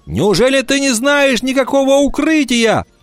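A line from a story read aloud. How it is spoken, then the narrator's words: Breathless shout. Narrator (Russian): задыхаясь, прокричал Вольф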